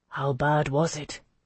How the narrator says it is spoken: he asked me eventually, keeping his voice low

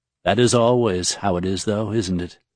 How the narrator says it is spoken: Shudin asked

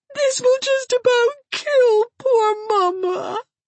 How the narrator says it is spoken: sobbed Hazel

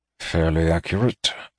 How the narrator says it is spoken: murmured Alchesh

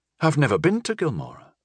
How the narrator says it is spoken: Rudy said uneasily

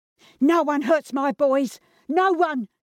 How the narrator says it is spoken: she screamed

